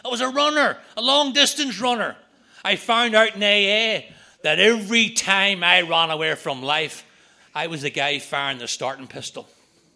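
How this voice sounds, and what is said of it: Irish accent. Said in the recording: “I'm standing in America with an Irish accent.”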